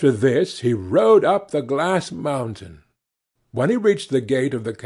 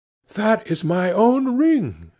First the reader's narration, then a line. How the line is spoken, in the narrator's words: she exclaimed